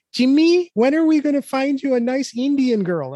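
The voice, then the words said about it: Imitates another person's voice. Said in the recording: “my impression of my mom”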